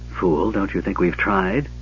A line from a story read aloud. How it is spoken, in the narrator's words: Kisanth muttered